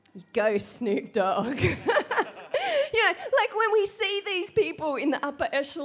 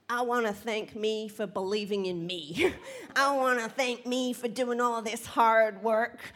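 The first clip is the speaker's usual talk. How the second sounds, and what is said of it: Imitates another person's voice. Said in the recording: “Sorry about my accent. It's the best I got.”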